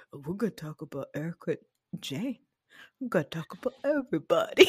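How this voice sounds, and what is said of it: Imitates another person's voice, Yogi Bear-like. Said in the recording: “You sound like Yogi Bear. ... I'm really bad at accent work”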